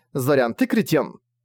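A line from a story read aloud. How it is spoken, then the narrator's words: Angry. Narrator (Russian): Сердито начала она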